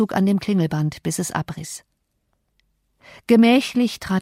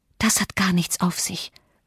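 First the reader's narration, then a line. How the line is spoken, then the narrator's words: Fearful whisper. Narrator (German): flüsterte, obwohl ich gleichfalls Angst hatte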